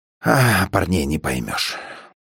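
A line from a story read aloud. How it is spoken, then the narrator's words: Mumbling into his glass. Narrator (Russian): Манус склонялся к своему стакану и бормотал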